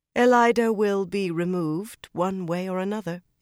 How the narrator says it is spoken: Egwene said calmly

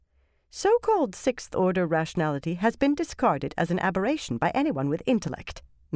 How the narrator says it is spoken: Noreen put in, a touch sharply

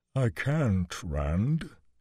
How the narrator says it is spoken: he said mournfully

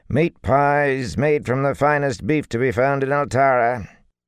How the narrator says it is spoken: a wrinkled woman with a tray hung from a strap around her neck who shouted

